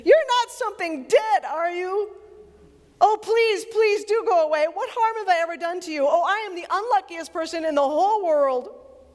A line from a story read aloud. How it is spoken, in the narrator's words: for an even more terrible idea had come into his head, he said, almost in a scream